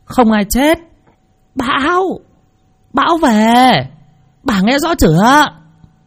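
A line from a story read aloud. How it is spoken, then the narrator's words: Nearly shouting into ear. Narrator (Vietnamese): Bà Tư ghé sát tai mà nói như gào lên, bởi vì biết là bà Hạnh già, tai nghe lúc rõ lúc không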